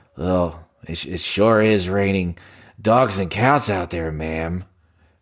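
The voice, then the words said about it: Jack Nicholson impression. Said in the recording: “let me see if I could do an impression of those men ... this is going to be Jack Nicholson ... That doesn't sound”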